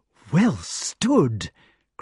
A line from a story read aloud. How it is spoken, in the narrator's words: cried Balan delightedly